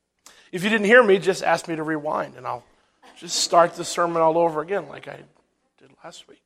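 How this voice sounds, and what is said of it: Slightly scratchy, irritated voice. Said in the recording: “My voice is a little itchy today”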